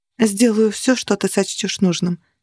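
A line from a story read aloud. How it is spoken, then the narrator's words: Quiet. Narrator (Russian): тихо сказала она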